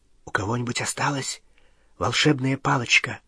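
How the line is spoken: Whisper. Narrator (Russian): Гарри прошептал

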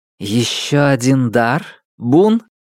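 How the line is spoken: Plain. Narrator (Russian): спросила будущая императрица

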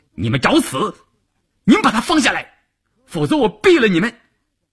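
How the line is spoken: Frantic roar. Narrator (Chinese): 晋中人一时急了，冲着车长和乘务员吼道

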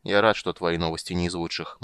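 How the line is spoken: Gloomy remark. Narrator (Russian): мрачно заметил Карамон, верно истолковав удрученный вид жрицы

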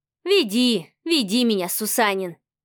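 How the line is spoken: Chuckling. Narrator (Russian): Ефимов хохотнул

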